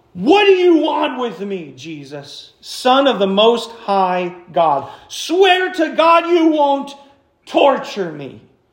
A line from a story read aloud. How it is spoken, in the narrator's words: He shouted at the top of his voice